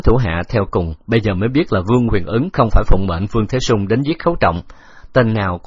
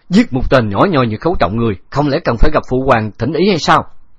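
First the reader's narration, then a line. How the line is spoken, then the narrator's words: Surprised then angry shout. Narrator (Vietnamese): Vương Huyền Ứng hơi kinh ngạc, sau đó nổi giận hét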